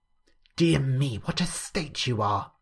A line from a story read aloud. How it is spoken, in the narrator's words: Cordelia whispered bitterly